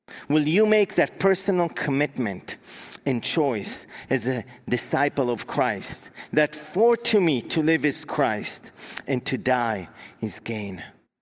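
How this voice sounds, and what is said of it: Israeli accent. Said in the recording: “Maybe you've picked up on my accent. I was born and raised in Israel”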